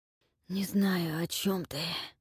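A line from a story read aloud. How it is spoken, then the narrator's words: Hoarse. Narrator (Russian): прохрипел он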